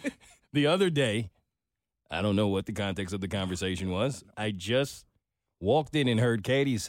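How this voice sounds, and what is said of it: Usual voice. Nothing is said of it.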